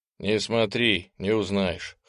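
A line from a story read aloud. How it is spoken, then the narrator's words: Amused snort. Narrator (Russian): хмыкнул попаданец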